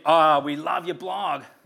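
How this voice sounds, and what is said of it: Bad put-on American accent. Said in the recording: “That's such a shit accent.”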